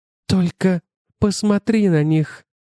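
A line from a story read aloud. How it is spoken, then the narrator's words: Breathless awed whisper. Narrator (Russian): прошептал задыхающийся от благоговения голос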